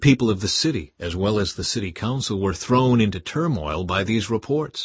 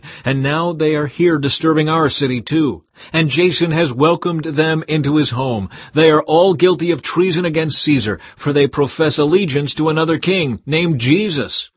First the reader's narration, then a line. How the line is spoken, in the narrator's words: they shouted